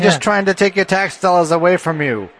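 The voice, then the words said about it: Put-on 1950s New York Bronx accent. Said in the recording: “Exactly the accent that they used ... This is the voice of God ... A New York 1950 actor. ... Part Bronx, though, I think.”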